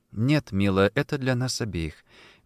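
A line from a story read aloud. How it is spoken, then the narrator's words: Soft, with underlying anxiety. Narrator (Russian): мягко ответила Софи, хотя в ее голосе звучала тревога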